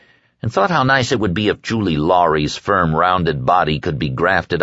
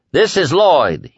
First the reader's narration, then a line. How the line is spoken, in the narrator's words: he bellowed into the phone